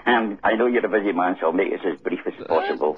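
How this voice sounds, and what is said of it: Scottish accent. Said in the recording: “your wonderful Scottish accent there”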